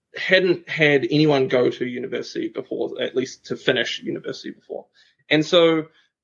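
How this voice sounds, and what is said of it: New Zealand accent. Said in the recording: “where is my accent from? So I'm from New Zealand”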